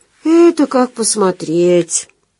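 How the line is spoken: Sighing woman. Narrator (Russian): вздохнула Маринка

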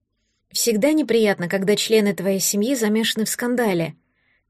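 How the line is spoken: Quiet young woman. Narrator (Russian): тихо сказала девушка

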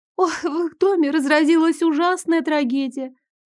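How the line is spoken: Thin sob. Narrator (Russian): Тоненько всхлипнула Гелия

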